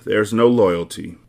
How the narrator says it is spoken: Monk sighs

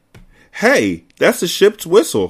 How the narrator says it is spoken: I cried

